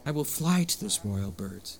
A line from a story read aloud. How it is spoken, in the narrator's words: he exclaimed